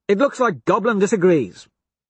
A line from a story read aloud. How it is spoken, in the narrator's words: Cassius snaps